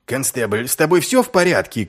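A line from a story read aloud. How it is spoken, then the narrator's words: Shouting. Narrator (Russian): крикнул Ваймс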